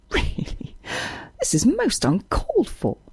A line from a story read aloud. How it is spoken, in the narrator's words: she exclaimed, laughing